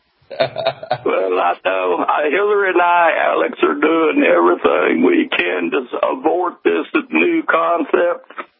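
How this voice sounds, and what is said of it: Bill Clinton impression. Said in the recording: “doing a Bill Clinton imitation”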